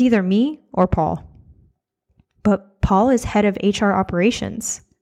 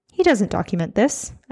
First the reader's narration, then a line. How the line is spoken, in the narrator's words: Esser scoffed